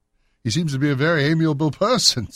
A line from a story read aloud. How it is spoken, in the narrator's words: said Holmes, laughing